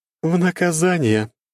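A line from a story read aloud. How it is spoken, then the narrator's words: Scoffing. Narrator (Russian): хмыкнула мерзопакостная шатенка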